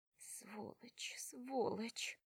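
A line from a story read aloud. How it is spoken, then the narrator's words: Muttering. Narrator (Russian): бормочет она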